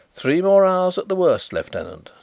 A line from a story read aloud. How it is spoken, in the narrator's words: said Carrados cheerfully